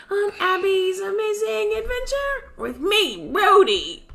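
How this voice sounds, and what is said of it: Bad cartoon character voice impression. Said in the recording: “bad Rhodey impression”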